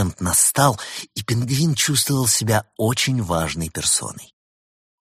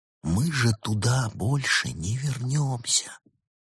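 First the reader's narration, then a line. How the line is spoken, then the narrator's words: Giant's tragic whisper. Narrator (Russian): великан трагическим шепотом изрек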